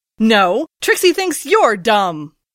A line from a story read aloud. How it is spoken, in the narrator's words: Trixie snapped back